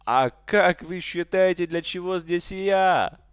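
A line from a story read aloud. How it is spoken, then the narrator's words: Little man exclaiming. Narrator (Russian): воскликнул маленький человечек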